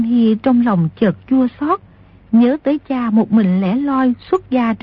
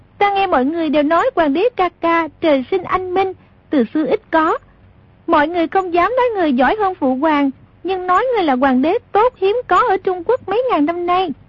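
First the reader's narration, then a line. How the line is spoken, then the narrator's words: Smiling female speech. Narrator (Vietnamese): Công chúa mỉm cười nói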